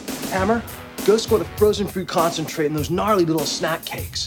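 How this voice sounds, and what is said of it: Over-the-top surfer dude accent. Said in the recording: “that terrible surfer, like over the top surfer accent ... channel your inner Bill and Ted”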